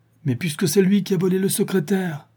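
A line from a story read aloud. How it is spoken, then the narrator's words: Exclaiming. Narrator (French): s'exclama M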